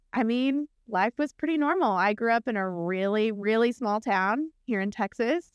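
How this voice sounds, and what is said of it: Texan twang. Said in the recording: “You can hear my twang every once in a while.”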